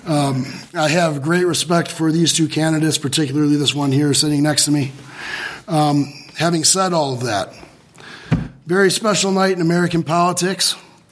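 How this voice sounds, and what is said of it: Strained, unwell-sounding voice. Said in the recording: “apologize for my voice. The pollen out there is wreaking havoc on it.”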